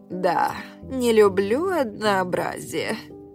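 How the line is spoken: Exhaling smoke while speaking. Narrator (Russian): выдохнула в меня облако дыма

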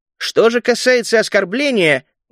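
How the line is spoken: Loud shout. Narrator (Russian): громко выкрикнул я

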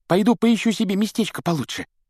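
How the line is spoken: Squeaky voice. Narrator (Russian): пропищал ему в спину Колин

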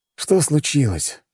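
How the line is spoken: Sighing. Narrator (Russian): вздохнул

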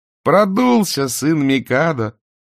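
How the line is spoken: Laughing. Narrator (Russian): засмеялась госпожа

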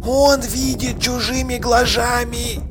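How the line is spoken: Whispered. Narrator (Russian): прошептала Игорина

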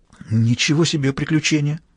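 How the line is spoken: Frightened. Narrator (Russian): отозвалась она испуганно

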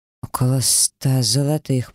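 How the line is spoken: Nervous mumble. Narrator (Russian): пробормотал длинный тощий Сомс и сглотнул

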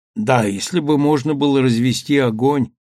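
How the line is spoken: Glum agreement. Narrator (Russian): уныло согласился Чезаре

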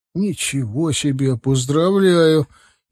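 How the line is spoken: Sincere, slightly unsure. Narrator (Russian): Искренне, одновременно, немного неуверенно сказал Ираклий

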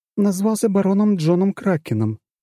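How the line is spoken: Soft babble. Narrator (Russian): пролепетала пухлыми губками Лада

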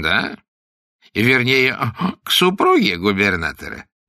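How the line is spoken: Meaningful giggle. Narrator (Russian): многозначительно хихикнул Вакер

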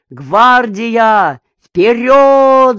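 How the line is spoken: Booming shout drowned by shellfire. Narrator (Russian): закричал он зычным голосом, хотя вой, визг снарядов и гром разрывов заглушали его голос

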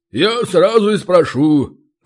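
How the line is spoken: Booming. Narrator (Russian): прогудел Ори

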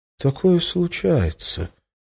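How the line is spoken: Uncertain. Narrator (Russian): неуверенно начал он

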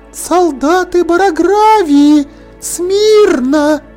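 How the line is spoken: Weak thin voice, ghostly whisper. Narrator (Russian): сказала Волки, и одновременно с ее слабым тоненьким голосом послышался другой призрачный шепот, который наполнил все углы огромного зала

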